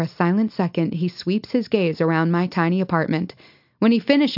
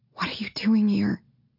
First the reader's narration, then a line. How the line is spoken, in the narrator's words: I whisper